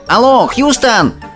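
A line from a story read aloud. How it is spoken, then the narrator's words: Yelling into microphone. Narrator (Russian): заорал он в микрофон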